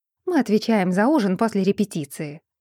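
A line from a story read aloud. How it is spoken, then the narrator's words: Mother's gloomy reply. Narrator (Russian): мрачно ответила мать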